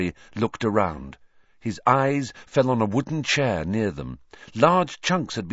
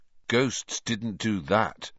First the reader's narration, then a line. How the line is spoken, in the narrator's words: he said slowly